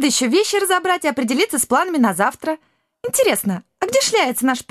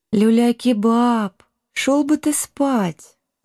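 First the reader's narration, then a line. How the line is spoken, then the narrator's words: Affectionate request. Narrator (Russian): ласково попросила Шелти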